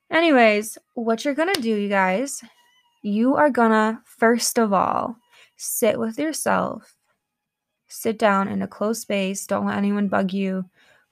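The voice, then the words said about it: Congested, sick-sounding voice. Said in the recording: “bear with my voice. I'm like really congested right now. ... I sound sick”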